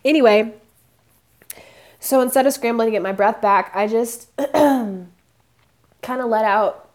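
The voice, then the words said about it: Choked-up, emotional voice. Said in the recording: “I'm getting choked up just talking about the story.”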